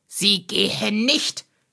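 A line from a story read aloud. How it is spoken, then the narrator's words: Snapping furiously. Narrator (German): schnauzte Heiner Strohsack sie an und sprang mit hochrotem Kopf auf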